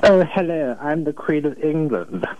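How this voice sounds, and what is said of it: American imitating a posh British accent. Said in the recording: “do an impression of an American doing an impression of a British person ... Well, it's not bad.”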